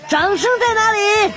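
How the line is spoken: Excited shouting to himself. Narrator (Chinese): 这货唱到兴奋的时候，还自言自语在那喊

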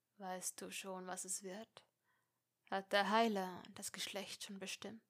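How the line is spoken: Question after a pause. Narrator (German): fragte nach einer Weile

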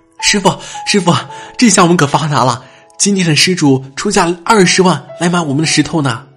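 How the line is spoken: Breathless young monk. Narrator (Chinese): 小和尚气喘吁吁的说

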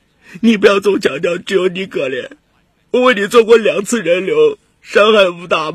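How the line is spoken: Crying. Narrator (Chinese): 彭楠哭着说

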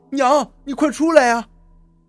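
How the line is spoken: Urgent shout. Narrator (Chinese): 赶忙跑进去，一进门就喊

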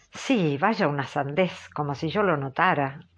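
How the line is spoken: Dismissive, offhand tone. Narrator (Spanish): replicó Catalina en tono displicente

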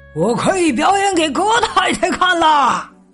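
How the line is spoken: Loud announcement. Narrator (Chinese): 他大声宣布说

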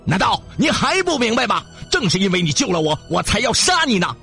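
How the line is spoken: Enraged devil roaring. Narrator (Chinese): 这下魔鬼被激怒了，他大吼着

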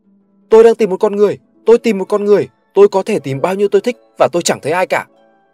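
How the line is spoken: Sudden shout, ragged fool. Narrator (Vietnamese): Gã ngốc rách dưới bỗng hét lên giữa đám đông

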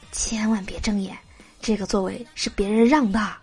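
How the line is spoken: Whispering. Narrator (Chinese): 男朋友 附在我耳边小声的说

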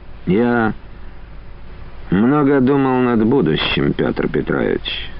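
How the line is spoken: Soft good-natured chuckle. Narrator (Russian): неожиданно усмехнулся Лохновский, мягко и как-то мирно, добродушно

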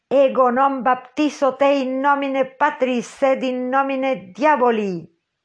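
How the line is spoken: Delirious shout. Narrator (Spanish): gritó Ahab, presa del delirio

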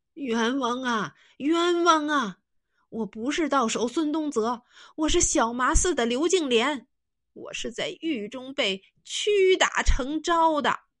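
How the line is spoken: Loud shout. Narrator (Chinese): 他也高声喊道

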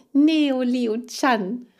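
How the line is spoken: Called back. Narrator (German): rief Mariechen zurück

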